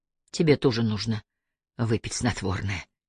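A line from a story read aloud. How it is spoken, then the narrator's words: Whisper. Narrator (Russian): прошептал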